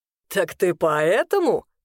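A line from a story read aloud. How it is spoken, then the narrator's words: Sudden drunken chuckle. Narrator (Russian): Неожиданно хохотнул Арвин, которого, кажется, еще больше развезло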